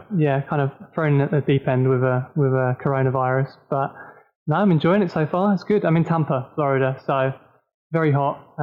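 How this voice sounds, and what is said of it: British accent. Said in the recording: “your accent, you're obviously from the UK”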